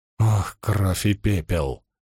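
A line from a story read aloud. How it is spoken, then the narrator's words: Groan. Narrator (Russian): простонала Найниф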